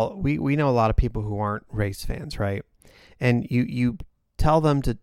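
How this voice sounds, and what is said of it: Usual voice. Nothing is said of it.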